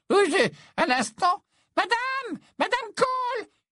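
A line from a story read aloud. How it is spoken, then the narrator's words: Shout over shoulder. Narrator (French): cria-t-elle par-dessus son épaule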